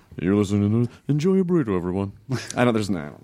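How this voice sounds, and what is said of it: Weird put-on voice. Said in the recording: “That's a weird voice. You never used that before.”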